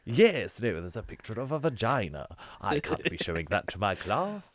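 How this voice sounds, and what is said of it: British accent. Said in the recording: “A British accent saying the word vagina”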